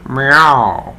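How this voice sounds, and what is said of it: Good imitation of a cat meow. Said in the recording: “doing a really good impression of our cat”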